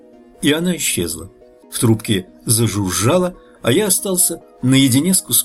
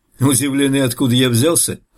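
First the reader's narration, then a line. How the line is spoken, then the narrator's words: Laughing. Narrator (Russian): рассмеялся он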